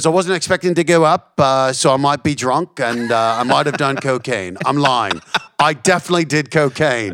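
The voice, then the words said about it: Put-on Australian accent. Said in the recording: “my awful Australian accent ... No, it's good.”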